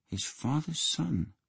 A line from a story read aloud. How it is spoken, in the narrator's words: muttered